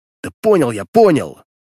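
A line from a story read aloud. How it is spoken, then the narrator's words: Snapped. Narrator (Russian): огрызнулся я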